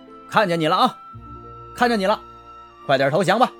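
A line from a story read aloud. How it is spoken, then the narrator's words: Wild shouting. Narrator (Chinese): 报社行政科科长王有堂躲在树上，汉奸胡乱地喊着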